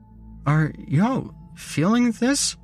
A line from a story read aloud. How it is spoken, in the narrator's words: whimpered